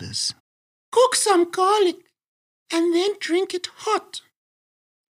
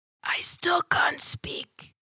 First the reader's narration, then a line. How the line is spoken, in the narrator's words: she whispers